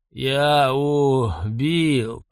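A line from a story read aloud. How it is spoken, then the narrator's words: Hoarse rasp. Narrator (Russian): прохрипел Бернат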